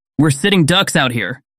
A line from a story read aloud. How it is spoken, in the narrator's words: Roxy shouted from a nearby doorway